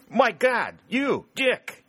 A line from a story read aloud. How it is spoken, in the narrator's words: he exclaimed